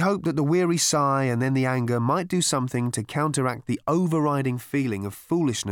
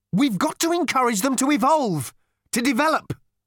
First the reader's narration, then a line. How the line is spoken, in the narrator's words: Arthur burst out angrily